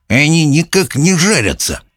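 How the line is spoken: Mutter. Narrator (Russian): пробормотал он

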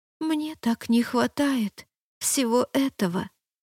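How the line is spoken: Soft. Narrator (Russian): мягко сказала я

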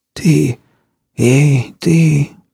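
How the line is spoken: Hoarse male rasp. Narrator (Russian): прохрипел мужчина

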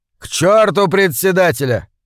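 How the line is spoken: Barked shout. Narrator (Russian): гаркнул Стэн

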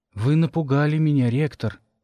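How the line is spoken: Sighing. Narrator (Russian): вздохнул он

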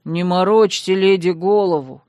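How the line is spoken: Confident deep male voice. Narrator (Russian): уверенно пробасил молодой широкоплечий мужчина в кокетливом алом фартуке

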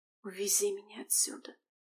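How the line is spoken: Very quiet whisper. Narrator (Russian): шепнула Алиса очень тихо

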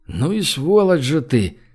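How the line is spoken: Involuntary breathed exclamation. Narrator (Russian): выдохнул Гош против своей воли

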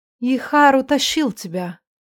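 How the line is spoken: Sad, self-reproaching. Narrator (Russian): грустно проговорила словно обвиняя себя в произошедшем

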